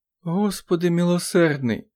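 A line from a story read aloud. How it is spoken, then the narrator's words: Moaning. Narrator (Ukrainian): простогнала Амелія Вільямс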